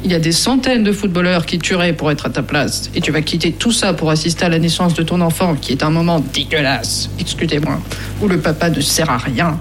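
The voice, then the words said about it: Impression of France Pierron. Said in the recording (French): “Très bien imité, on a cru l'entendre. ... On a presque cru l'entendre.”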